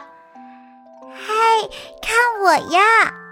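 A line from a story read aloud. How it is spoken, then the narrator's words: Playful call from hiding. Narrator (Chinese): 兔宝宝也想玩，它藏在毛巾后面喊着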